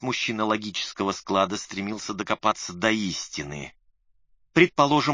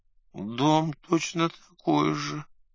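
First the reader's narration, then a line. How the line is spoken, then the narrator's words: Sad mumble. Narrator (Russian): грустно пробурчал бедолага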